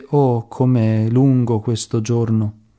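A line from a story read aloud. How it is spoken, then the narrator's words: Sighing. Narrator (Italian): sospirando disse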